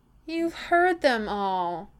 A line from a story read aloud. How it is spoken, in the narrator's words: Keeley whines